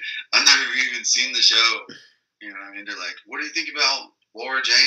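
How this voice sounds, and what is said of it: Usual voice. Nothing is said of it.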